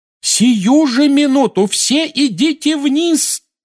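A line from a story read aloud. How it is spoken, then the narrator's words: Yelled. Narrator (Russian): завопила миссис Уизли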